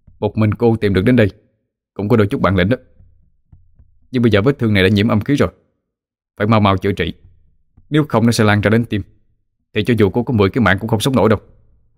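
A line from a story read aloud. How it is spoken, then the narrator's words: Cold snort, then shout. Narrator (Vietnamese): Hắn hừ lạnh rồi quát lên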